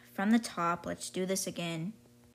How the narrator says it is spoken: Landon sighs and said

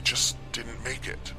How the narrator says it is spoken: I mumbled again

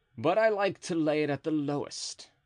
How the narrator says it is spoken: replied D'Artagnan coolly

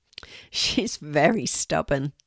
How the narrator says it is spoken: says Maggie, laughing

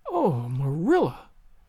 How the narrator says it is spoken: gasped Anne

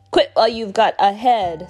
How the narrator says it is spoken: snapped Snide

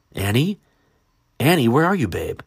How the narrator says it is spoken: Eric called out in desperation

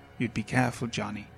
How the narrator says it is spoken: said

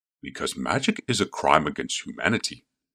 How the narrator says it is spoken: said Voska, with a soft chuckle that belied his current state

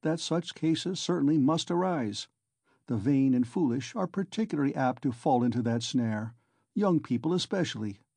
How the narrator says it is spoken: he went on calmly

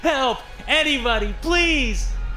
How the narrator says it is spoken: I screamed

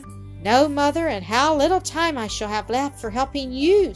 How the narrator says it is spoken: sighed Mildred

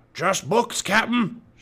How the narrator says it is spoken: shouted Stinky

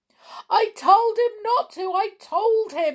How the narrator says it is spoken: he groaned

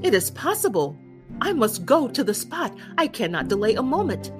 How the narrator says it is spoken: Werther heard this, he exclaimed with great excitement

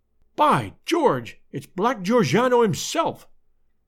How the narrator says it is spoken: cried the American detective

